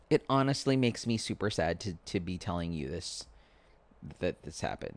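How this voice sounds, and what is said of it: Choked up, emotional voice. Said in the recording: “getting choked up about it. That's how serious I am. It sounds dramatic, but I'm getting choked up”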